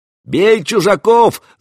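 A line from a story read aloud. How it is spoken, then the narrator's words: Yelling. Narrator (Russian): завопил кто-то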